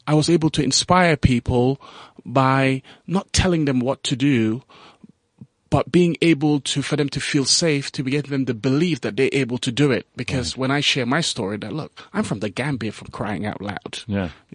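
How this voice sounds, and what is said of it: Slight Gambian accent. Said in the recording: “I even pick up a little bit of an accent there.”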